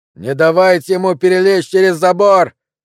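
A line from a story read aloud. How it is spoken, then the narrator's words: Yelling. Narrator (Russian): вопил Билли Фрицел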